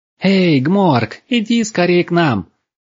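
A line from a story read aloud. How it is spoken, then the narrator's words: Cheerful shouting. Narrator (Russian): весело закричали русалки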